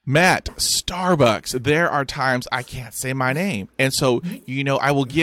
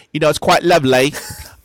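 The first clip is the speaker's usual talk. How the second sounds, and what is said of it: Imperfect put-on British accent. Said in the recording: “I have to be British ... I will be British ... it's not a quite good accent”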